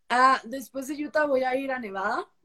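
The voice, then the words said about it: Mixed Peruvian and Costa Rican Spanish accent. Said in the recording (Spanish): “a veces me comentan que es un poco neutro, este, a veces que es un poco mexicano ... es un mix entre Perú y Costa Rica, porque no es un acento 100% peruano, no es un acento, no es un acento tico ... acento mix”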